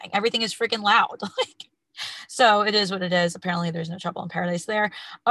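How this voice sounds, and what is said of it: Slightly raspy voice. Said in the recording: “I don't know if you could tell, I'm a little raspy.”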